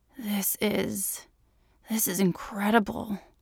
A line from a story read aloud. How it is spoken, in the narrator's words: he gasped